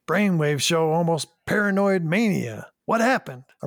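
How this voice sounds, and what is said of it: Imitated TV character's accent. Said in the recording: “I'm really working on my McCoy accent. ... McCoy accent's really good.”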